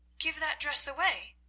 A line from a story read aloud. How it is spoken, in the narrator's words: replied Juliet hastily